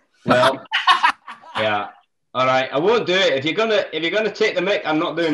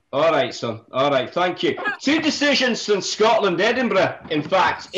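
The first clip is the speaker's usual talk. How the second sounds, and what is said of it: Put-on Scottish accent. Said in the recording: “has promised to do it in the Scottish accent ... if I do the whole thing in a Scottish accent”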